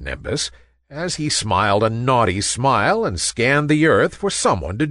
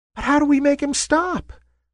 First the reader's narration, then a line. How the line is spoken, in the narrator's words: squeaked a wispy little cloud